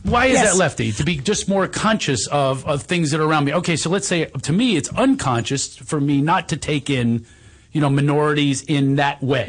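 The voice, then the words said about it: Philadelphia accent. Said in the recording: “It's my freaking accent... Do you realize I have a Philadelphia accent?... I have an accent.”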